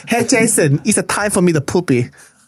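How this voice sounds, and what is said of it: Imitates another person's accented voice. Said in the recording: “I'm not sure that's how your father sounds, but I'm just doing the racial impersonation of your father.”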